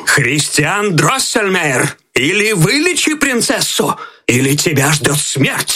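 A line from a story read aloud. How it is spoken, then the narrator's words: Angry royal exclamation. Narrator (Russian): И король, гневно сверкая глазами, воскликнул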